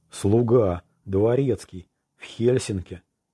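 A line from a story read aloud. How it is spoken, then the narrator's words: Agitated, very expressive whisper. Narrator (Russian): Взволнованно зашептал Кокки таким тоном, что никаких слов уже не было нужно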